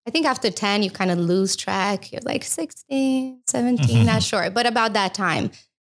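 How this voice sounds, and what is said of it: Slight Romanian accent. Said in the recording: “I lost a little bit of my accent, but I think it comes out when I'm nervous, maybe just a tiny bit... I'm from Romania”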